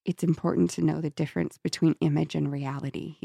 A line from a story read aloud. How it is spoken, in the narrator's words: he said softly